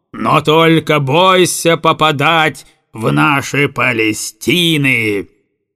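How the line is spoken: Howl. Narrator (Russian): Взвыл угольщик

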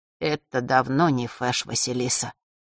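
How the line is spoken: Muffled low voice. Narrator (Russian): глухо произнес Маар

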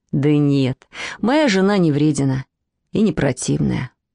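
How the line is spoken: Sighing. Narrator (Russian): вздохнул молодой человек

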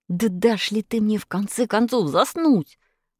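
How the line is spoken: Hiss. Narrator (Russian): зашипел Павлик

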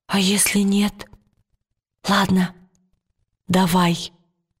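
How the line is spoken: Soft reply. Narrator (Russian): тихонько откликнулась Лира

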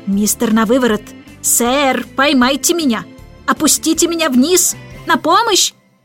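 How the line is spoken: Panicked shouting. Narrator (Russian): кричала мисс Тартлет

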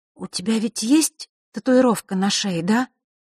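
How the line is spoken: Trembling voice. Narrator (Russian): дрожащим голосом произнесла Василиса

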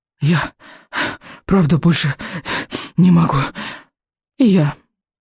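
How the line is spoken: Breathless. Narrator (Russian): выдохнула Камикадзе

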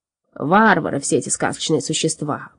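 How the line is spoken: Muttering. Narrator (Russian): пробормотал он

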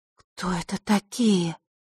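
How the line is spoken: Girl's soundless mouthed whisper. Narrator (Russian): одними губами прошептала девочка

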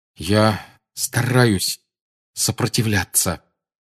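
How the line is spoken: Forced through clenched teeth. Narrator (Russian): выдавил Гарри сквозь стиснутые зубы

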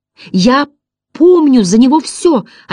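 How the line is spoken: Desperate exclamation. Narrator (Russian): отчаянно воскликнул Атрей

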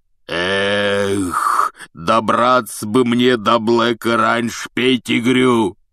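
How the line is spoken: Roaring. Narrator (Russian): взревел Хагрид

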